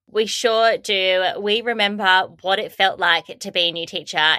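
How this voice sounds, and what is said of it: Australian English accent. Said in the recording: “all the way from Australia, as you can probably hear from my accent”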